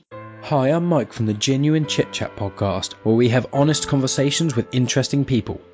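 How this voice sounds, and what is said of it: British accent. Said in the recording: “British accent.”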